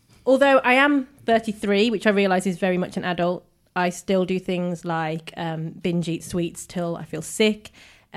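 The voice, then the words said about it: Birmingham English accent. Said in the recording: “those of you with a keen ear for accents can probably tell, I am not originally from Dorset. I hail from a very small, quiet, little-known area of the country called Birmingham, or Birmingham, because that's the way we all speak.”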